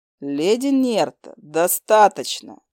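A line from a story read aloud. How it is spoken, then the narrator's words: Growled. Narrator (Russian): рыкнул Хантер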